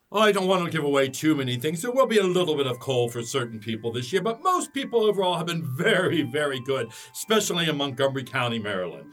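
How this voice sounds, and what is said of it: Santa voice with slight Irish accent. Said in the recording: “you sound a little Irish. Are you Irish, or what's the deal there with the accent?”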